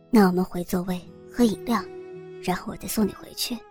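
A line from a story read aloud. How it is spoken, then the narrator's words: Gentle, tender. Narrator (Chinese): 王红很温柔的对小慧说道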